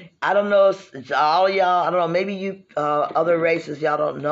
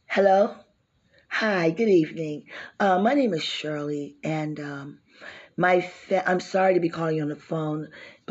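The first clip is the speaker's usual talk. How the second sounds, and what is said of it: Put-on white girl voice. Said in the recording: “We even have a white girl voice ... here's my right girl voice.”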